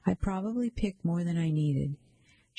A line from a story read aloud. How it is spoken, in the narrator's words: she said with a small laugh